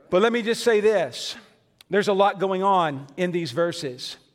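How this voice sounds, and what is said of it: Western Kentucky, Southern Illinois accent. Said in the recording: “a pastor who grew up with a Western Kentucky, Southern Illinois accent”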